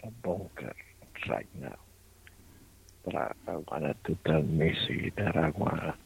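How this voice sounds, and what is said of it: Creepy put-on voice. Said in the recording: “He's creepy voice again.”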